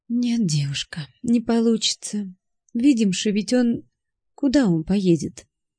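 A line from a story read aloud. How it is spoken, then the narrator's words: Sighing, quiet. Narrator (Russian): Хозяйка вздохнула и негромко сказала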